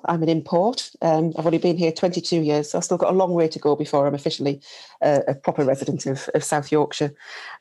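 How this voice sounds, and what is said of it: Non-local accent, not from Barnsley. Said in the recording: “As you can probably tell from my accent, I am not a Barnsley local.”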